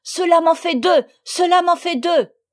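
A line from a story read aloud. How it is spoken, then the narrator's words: Shouting. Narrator (French): Sophie criant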